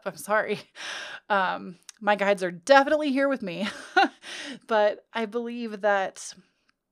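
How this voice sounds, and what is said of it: Choked-up, emotional voice. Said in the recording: “starting to get choked up”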